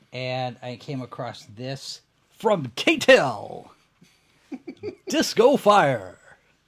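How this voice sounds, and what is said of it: Radio announcer voice. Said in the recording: “I'm using my Randy Radio voice right now.”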